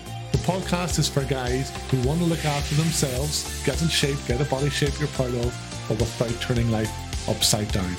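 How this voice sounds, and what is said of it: Irish accent. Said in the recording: “here in Ireland, as you can probably tell from the accent”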